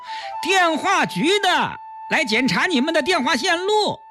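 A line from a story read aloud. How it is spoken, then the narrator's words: Loud repetition. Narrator (Chinese): 检修工 大声重复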